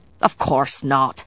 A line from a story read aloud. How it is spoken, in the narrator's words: Galloglass replied, his voice brusque